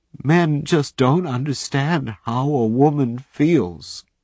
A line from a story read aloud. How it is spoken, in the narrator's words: she sobbed